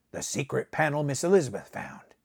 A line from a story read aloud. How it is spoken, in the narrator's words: Buckner snapped